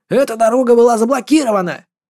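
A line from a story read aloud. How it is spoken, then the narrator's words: Shouting. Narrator (Russian): кричал он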